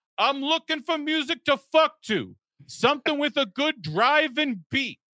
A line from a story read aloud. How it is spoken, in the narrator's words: He later confessed loudly